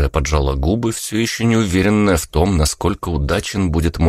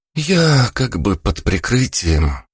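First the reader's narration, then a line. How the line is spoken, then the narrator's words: Heavy sigh. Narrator (Russian): тяжело вздохнув, выдала Алла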